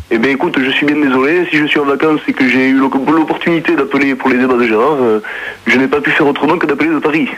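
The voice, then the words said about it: Put-on southern French Toulouse accent. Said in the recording (French): “tu as l'accent marseillais ... je n'ai pas l'accent marseillais, j'ai l'accent toulousain ... les doubles voix”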